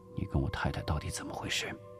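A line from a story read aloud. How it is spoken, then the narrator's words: Quiet question. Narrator (Chinese): 吴石低声问道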